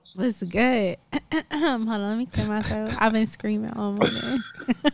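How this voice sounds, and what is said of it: Raspy, hoarse voice. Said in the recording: “I've been screaming for the past hour ... don't mind my raspy voice today”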